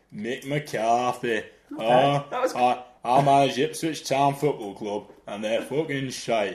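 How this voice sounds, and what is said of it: Imitates another person's voice. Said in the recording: “Do an impression of Mick McCarthy ... He's gone Geordie ... Town in Scottish there ... my impression”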